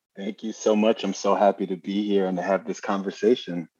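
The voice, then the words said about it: New York accent. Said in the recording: “I love that accent. It's a New Yorker accent, right?”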